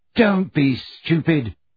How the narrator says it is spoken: she snarled

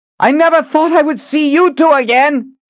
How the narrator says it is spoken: she yelled over the sound of hooves

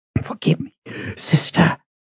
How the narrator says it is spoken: he said in a pained, hoarse voice

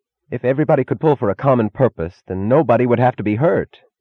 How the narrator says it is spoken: he cried suddenly, in a tone of incongruous despair

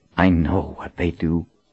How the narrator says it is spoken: Clarissa whispered

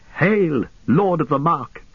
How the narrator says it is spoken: cried

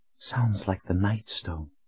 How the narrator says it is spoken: Colin whispered to him

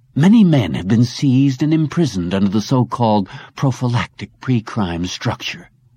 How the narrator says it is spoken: General Kaplan continued, his voice gaining feeling and strength

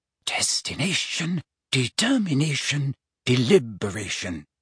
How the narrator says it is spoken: she murmured

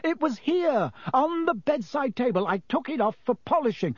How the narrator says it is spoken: Percy was shouting

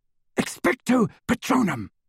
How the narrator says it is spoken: he whispered

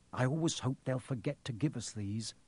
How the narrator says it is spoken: said Fred Weasley sadly

